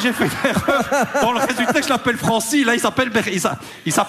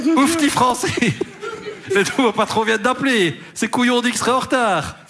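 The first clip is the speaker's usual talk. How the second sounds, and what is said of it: Put-on niche regional accent. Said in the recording (French): “ça c'est un accent niche”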